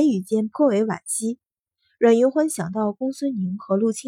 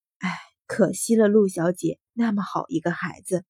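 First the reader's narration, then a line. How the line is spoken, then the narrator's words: Sighing. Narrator (Chinese): 程夫人叹道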